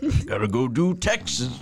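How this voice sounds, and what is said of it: Imitates a middle-aged man's voice. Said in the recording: “that your impression of a 45-year-old man”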